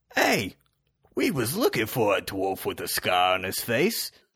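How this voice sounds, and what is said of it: Deliberately bad put-on accent. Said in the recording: “I'm going to do a really bad accent, I apologize”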